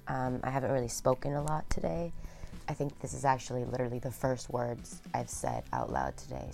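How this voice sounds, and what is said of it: Raspy voice. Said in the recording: “my voice sounds so raspy right now”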